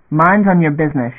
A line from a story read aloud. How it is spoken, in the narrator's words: snapped, on general address